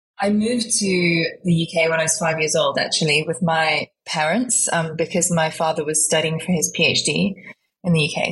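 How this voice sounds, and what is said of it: Slight British accent. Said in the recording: “There's a tinge of an accent, and obviously ... it's a yes, British accent.”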